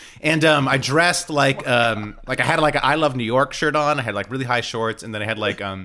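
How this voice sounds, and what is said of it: Usual voice. Nothing is said of it.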